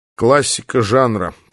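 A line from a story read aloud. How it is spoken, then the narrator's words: Grumbling with full mouth. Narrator (Russian): проворчал я с набитым ртом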